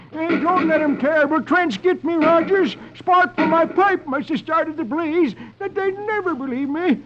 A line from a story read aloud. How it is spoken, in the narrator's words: Old man Katie starts to run, shouting